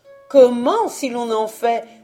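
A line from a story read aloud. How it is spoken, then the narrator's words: Almost indignant exclamation. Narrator (French): s'écria la ménagère presque indignée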